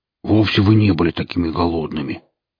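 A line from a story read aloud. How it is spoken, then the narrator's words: Instant growl, same pitch. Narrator (Russian): Рут мгновенно взрычал на прежней ноте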